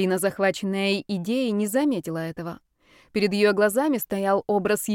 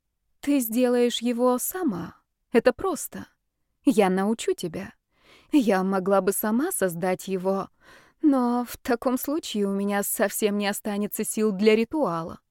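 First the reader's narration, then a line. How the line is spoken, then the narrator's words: Feigned sigh. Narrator (Russian): притворно вздохнула Ольга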